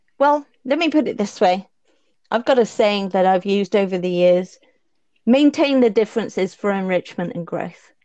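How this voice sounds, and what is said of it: Non-native English accent. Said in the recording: “you probably can tell from my accent, I'm new to this culture anyway ... it's not my home turf”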